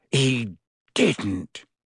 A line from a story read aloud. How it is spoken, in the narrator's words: he growled at Hermione